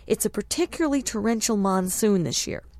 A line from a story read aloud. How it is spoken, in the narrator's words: the professor said cheerfully